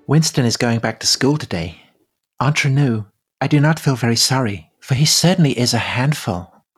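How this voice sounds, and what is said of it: Voice like Marilyn Monroe. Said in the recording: “is that Marilyn Monroe”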